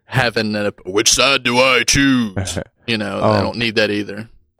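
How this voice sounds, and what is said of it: Galactus character voice impersonation. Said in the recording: “my best Galactus impersonation. I'm sorry.”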